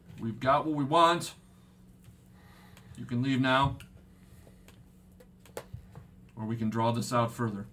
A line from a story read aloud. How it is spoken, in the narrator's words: The samurai chick just yells